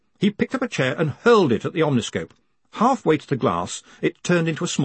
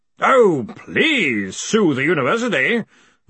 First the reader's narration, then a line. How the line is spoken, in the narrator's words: Ridcully bellowed